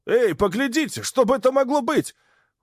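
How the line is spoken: Mechanic shouting. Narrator (Russian): один из наших механиков закричал

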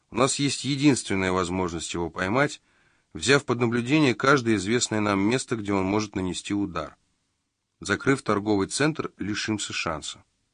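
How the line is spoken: Calm. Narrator (Russian): спокойно проговорил Магоцци

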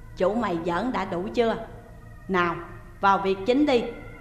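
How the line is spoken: Stern and loud. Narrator (Vietnamese): Ông Mười Họa lúc này mới nghiêm giọng nói lớn

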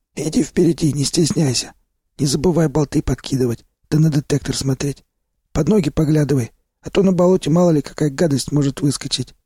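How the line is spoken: Instructive tone. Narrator (Russian): наставлял меня Сиплый

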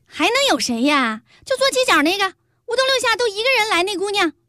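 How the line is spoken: Loud. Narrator (Chinese): 这小店的老板娘冲那姓陈的服务员大声说道

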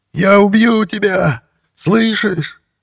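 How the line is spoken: Hoarse struggling wheeze. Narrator (Russian): Игорь хрипел, вырываясь из рук полицейских

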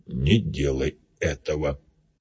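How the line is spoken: Quiet. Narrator (Russian): сказал Биг-Бак тихо

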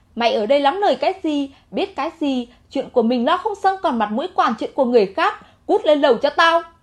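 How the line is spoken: Furious shout. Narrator (Vietnamese): Triệu lão gia tử giận tím mặt, quát

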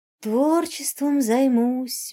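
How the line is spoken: Dreamy sigh. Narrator (Russian): мечтательно вздохнул Рыжий

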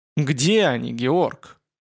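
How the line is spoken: Hoarse, chillingly cold. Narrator (Russian): Голос вестника стал хриплым и до ужаса холодным

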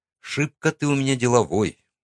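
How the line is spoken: Gruff mutter. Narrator (Russian): буркнул я

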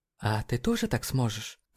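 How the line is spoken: Quiet tearful question. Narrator (Russian): Тихо спросила она, из ее глаз снова скатились слезы

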